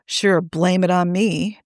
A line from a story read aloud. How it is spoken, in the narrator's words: Niall grumbles automatically